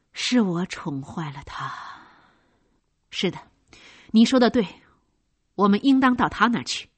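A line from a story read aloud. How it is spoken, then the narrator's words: Sighing. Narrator (Chinese): 尼古拉一面叹气，一面说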